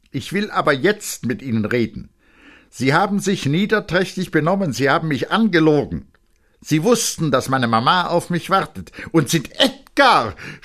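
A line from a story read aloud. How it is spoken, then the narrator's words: Mother screaming. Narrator (German): schrie die Mutter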